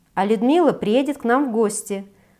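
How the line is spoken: Joyful announcement. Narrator (Russian): радостно сообщила я

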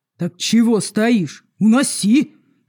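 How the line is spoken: Barking roar. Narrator (Russian): рявкнул темноволосый

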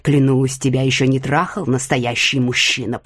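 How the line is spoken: Growl. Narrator (Russian): прорычал

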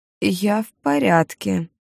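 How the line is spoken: Hoarse, strained voice. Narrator (Russian): произнесла севшим голосом

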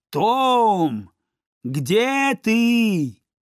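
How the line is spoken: Loud far-carrying shout. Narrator (Russian): возвысив голос, чтобы ее было слышно как можно дальше, она крикнула

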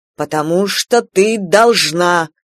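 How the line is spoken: Angry clipped father. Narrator (Russian): зло отчеканил мой отец

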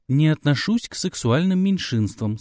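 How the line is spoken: Calm reply. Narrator (Russian): спокойно ответил

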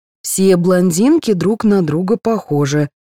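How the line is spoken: Plain. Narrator (Russian): сказала Таня

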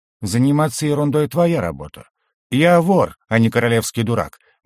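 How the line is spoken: Gloomy reply. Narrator (Russian): мрачно ответил

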